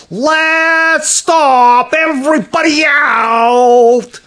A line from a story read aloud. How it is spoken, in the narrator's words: Someone yelled